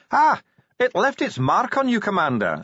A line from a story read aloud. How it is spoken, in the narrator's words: said the Grag cheerfully